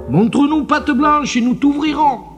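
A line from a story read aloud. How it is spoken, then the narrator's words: Very loud shout. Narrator (French): le plus grand, il cria très fort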